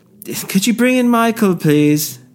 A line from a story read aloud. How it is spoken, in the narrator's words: He shouted